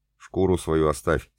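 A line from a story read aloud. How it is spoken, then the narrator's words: Plain. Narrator (Russian): сказал Вуйфаст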